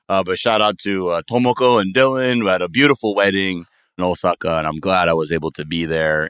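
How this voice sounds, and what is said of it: Hoarse, worn-out voice. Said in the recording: “You can hear my voice. I was screaming a lot. My voice is a little bit shot.”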